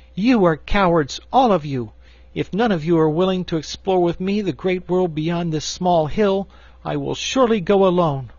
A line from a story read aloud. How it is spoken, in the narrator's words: Cake so anxious to find her precious dishpan, exclaimed impatiently